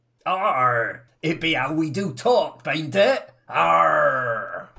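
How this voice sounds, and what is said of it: Put-on pirate accent. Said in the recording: “It's be not a Truro accent, it's a pirate accent.”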